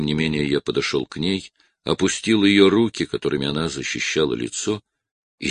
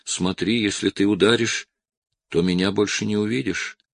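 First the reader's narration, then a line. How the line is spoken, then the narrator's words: Flat colorless voice. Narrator (Russian): сказала каким-то бесцветным голосом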